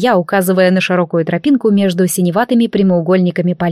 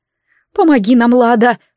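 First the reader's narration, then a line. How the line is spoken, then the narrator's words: Moaning from behind. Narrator (Russian): простонала за спиной Феодора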